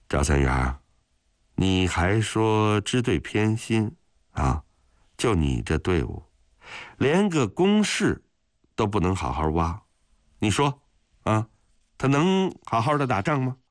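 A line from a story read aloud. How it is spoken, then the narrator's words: Sighing. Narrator (Chinese): 许承哲只好算了，叹了口气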